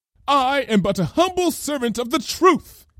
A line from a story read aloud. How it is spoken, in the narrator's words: cried Lyra